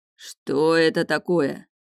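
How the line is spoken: Quiet menacing low male voice. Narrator (Russian): С тихой угрозой, раскатистым низким голосом говорит мужчина

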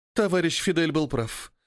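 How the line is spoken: Sighing. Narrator (Russian): вздохнула Фиалка

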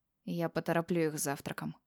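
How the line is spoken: Mumble. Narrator (Russian): пробормотал он

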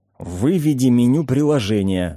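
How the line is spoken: Cold hiss. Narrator (Russian): холодно прошипел я

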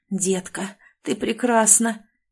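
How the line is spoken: Cloyingly sweet whisper. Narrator (Russian): вновь прошептал сладкий до приторности голос

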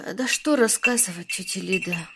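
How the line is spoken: Sighing. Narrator (Russian): вздохнула Анна

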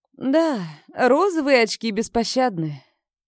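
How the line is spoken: Sad. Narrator (Russian): печально произнесла

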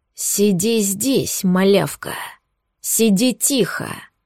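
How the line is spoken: Menacing hoarse rasp. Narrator (Russian): Устрашающе наклонившись, прохрипел

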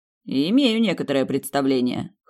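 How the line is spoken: Snorting. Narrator (Russian): хмыкнул он

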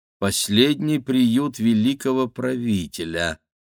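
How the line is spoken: Thoughtful mutter. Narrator (Russian): задумчиво пробормотал Игорь

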